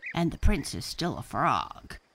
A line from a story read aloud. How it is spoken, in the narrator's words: croaked Francine